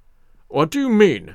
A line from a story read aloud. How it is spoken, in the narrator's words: said, huskily